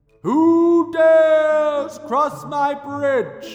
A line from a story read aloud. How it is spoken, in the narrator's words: boomed the troll